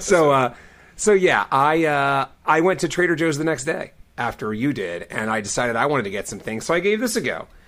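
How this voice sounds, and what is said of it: Hoarse, husky strained voice. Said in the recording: “I'm just getting over yelling my voice out ... you can hear it in my voice still. So I get a nice, smooth, sultry songwriter voice”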